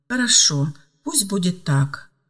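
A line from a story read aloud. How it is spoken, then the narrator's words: Calm but insistent man. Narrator (Russian): спокойно, но настойчиво продолжал мужчина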